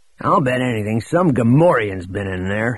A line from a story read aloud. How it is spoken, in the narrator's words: he growled to Droma